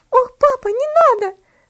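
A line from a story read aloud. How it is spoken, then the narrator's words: Terrified scream. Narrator (Russian): закричала в ужасе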